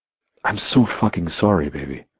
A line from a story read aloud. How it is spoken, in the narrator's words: I breathed out against her lips